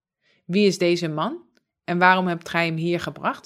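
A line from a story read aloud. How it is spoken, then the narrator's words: Plain. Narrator (Dutch): zei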